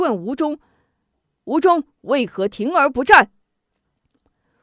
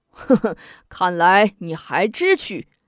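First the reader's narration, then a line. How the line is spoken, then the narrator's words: Pleased, mocking laugh. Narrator (Chinese): 应提面露喜色，笑中带嘲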